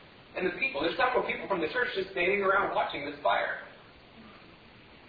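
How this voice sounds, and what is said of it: Usual voice. Nothing is said of it.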